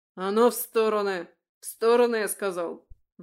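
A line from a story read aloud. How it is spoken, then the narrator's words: Sudden barked command. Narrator (Russian): вдруг гаркнул старший из стражи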